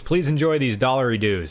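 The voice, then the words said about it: Poor put-on Australian accent. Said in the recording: “That was a terrible Australian accent.”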